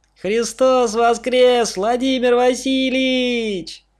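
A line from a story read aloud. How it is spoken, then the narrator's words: Shouted in chorus. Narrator (Russian): Хором закричали они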